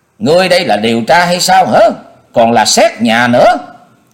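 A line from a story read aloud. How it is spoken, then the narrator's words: Stern woman's shout. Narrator (Vietnamese): Từ Phi, giọng của bà nghiêm nghị quát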